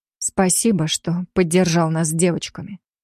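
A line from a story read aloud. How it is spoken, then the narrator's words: Quiet. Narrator (Russian): тихо произнесла я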